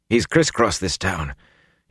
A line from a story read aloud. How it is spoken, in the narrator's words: Huron muttered, grimacing